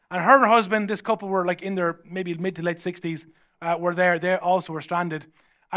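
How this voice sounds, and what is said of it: Irish accent. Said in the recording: “your accent, where are you from?" And I said, "Sure, I'm from Ireland."”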